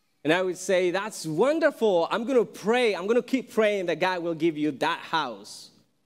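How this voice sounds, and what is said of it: Thick Mexican accent. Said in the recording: “his thick Mexican accent”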